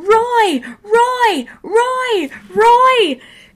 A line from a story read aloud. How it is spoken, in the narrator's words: screaming